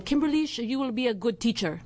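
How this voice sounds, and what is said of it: Imitated Romanian accent. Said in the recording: “He was from Romania, so that was my best accent representation of him.”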